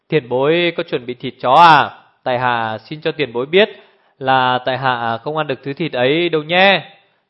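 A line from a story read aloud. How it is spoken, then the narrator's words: Smiling. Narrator (Vietnamese): Tiểu Phi mỉm cười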